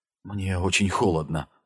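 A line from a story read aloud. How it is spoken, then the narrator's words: Whispered. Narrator (Russian): прошептала Нила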